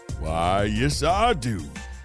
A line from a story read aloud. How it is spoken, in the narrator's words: the man continued with a country drawl